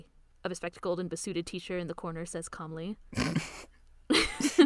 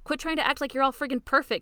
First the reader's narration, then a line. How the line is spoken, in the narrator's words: she shouts